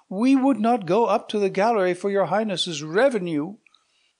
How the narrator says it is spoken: cried they with one voice

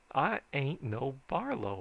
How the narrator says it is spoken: I said

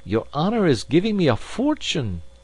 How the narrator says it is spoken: cried he

